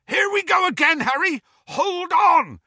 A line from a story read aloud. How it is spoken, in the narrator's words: yelled Hagrid